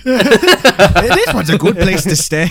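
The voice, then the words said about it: Attempted Wisconsinite Midwestern accent. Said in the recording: “I can't even do a Wisconsinite accent, but that was my best attempt.”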